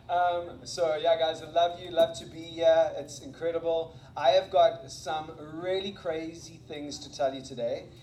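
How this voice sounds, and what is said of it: Non-American accent with American influence. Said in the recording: “my accent, because it's not the same as Dan's, as you can hear ... I don't know if I'm influenced by the American accent as well ... I graduated from high school in South Africa”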